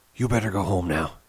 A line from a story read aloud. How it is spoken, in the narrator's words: he said quietly